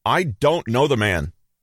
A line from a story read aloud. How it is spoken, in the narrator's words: Peter said in a loud voice